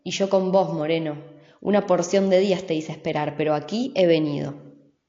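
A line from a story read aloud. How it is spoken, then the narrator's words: Rough-voiced reply. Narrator (Spanish): El otro, con voz áspera, replicó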